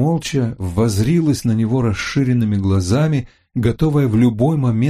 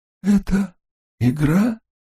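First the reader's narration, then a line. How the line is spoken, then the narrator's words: Hoarse voice muffled by mask. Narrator (Russian): Голос был хриплый, приглушенный кислородной маской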